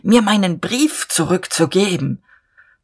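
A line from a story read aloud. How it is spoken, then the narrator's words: Hoarse with excitement. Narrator (German): sagte Dieterich heiser vor Erregung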